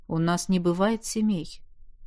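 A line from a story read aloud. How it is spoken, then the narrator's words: Quiet. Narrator (Russian): тихо сказал учитель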